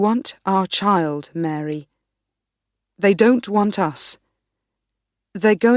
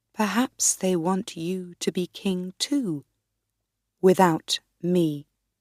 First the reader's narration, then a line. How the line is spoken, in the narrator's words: I said quietly